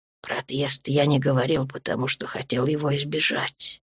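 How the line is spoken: Quiet, turned away. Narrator (Russian): тихо сказал он, не поворачиваясь

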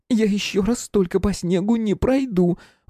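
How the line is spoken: Desperate pleading. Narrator (Russian): в отчаянии взмолилась Михайловская

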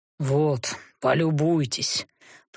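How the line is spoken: Grumbling. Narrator (Russian): проворчал

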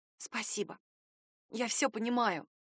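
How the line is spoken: Whisper. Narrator (Russian): прошептала я

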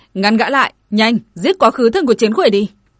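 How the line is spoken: Angry shout. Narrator (Vietnamese): Dương Hồ giận dữ hét

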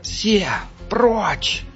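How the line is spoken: Hoarse rasp. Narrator (Russian): прохрипел Халькдав

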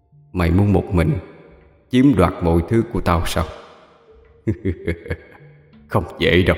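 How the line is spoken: Dark, ominous murmur. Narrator (Vietnamese): Bằng chất giọng âm u, nói vào tai hắn

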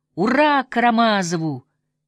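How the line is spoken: Ecstatic shout. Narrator (Russian): Еще раз восторженно прокричал Коля

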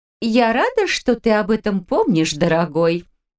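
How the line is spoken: Mocking melodious female voice. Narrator (Russian): насмешливо произнес певучий женский голос

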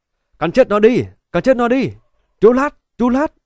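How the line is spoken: Crowd shouting. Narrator (Vietnamese): la hét

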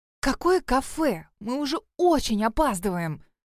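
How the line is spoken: Loud whisper, young woman, Russian. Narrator (Russian): Громко зашептала на русском языке девушка

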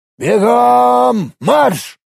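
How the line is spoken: Barked. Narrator (Russian): рявкнул Маверик

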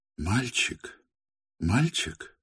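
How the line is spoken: Pained questioning voice. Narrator (Russian): болезненным голосом спросила она Арину Прохоровну

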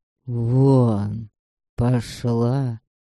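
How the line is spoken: Quiet, serious. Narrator (Russian): сказал Лёха тихо, но так и говорил, когда желал, чтобы поняли, он серьезен

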